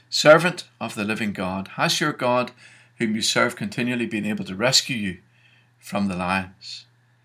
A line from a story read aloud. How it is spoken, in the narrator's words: cried